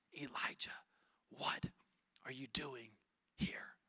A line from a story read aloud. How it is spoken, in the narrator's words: he whispers to him